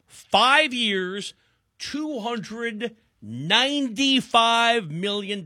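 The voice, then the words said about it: Reads the figures very slowly. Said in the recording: “That's why I read it slowly.”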